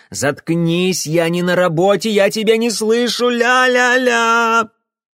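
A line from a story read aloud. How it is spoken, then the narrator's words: Yelled. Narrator (Russian): завопил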